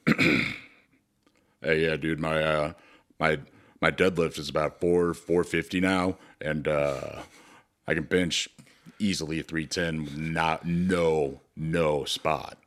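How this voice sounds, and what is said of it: Put-on changed character voice. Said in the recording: “my voice is going to change”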